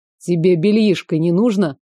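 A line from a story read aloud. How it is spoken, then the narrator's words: Young man's smirking grunt. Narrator (Russian): хмыкнул парень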